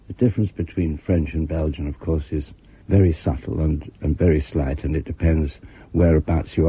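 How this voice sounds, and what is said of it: Usual voice. Nothing is said of it.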